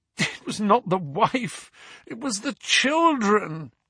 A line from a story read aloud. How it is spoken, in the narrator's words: groaned the prisoner